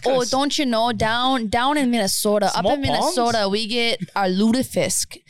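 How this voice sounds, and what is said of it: Exaggerated Minnesotan accent. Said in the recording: “Minnesota. What was that? ... That's called an accent.”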